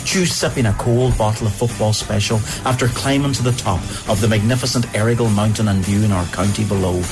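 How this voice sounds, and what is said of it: Donegal Irish accent. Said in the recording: “But Donegal, Ireland's favourite accent.”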